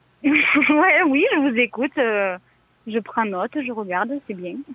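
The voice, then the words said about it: Southwestern French accent. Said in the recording (French): “Il vient d'où cet accent ... près de Toulouse ... d'où l'accent”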